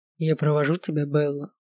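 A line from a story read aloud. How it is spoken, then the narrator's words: Low drawling voice. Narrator (Russian): сказал своим низким тягучим голосом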